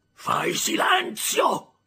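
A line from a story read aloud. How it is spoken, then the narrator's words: Terrible shouting voice. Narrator (Italian): gridò una voce terribile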